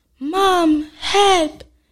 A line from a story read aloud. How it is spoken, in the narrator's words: Jack screamed